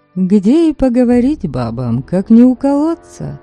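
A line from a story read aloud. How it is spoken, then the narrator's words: Cheerful, playful young woman. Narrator (Russian): молодка улыбнулась весело, задорно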